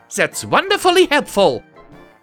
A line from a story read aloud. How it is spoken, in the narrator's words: she snapped